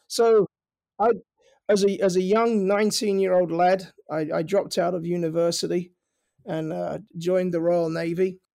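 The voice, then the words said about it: Slight accent. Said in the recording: “You may have caught a hint of an accent”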